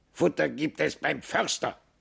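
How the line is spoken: Croaking raven. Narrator (German): krächzte der Rabe

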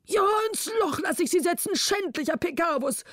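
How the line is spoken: King calling out, exhausted. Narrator (German): rief der König erschöpft

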